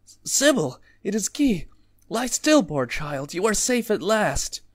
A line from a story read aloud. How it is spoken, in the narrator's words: The voice that had alarmed cried joyfully